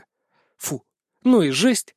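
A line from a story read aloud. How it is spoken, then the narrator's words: Breathed out. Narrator (Russian): выдохнула Настя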